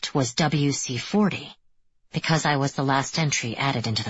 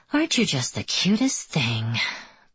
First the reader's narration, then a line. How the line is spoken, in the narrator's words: I murmur to him